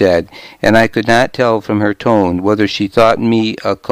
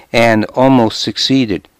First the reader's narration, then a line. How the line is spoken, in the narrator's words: I said wistfully